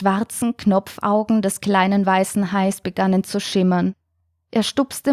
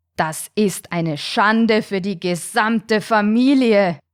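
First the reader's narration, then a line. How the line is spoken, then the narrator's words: Thundering voice. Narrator (German): donnerte der große weiße Hai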